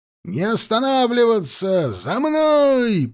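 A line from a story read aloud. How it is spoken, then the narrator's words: Shouted command. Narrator (Russian): прокричал команду Кулебякин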